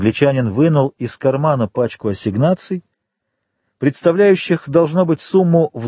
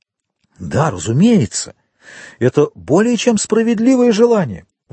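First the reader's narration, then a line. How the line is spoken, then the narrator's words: Exclaimed. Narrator (Russian): воскликнул господин де Бовиль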